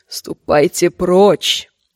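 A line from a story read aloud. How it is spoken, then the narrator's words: Hoarse whisper. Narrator (Russian): сказала она хриплым шепотом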